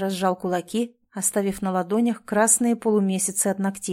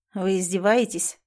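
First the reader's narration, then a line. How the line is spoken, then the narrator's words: Weary question. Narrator (Russian): устало спросил Ричард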